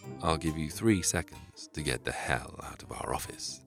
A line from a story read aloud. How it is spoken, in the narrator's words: said Albert calmly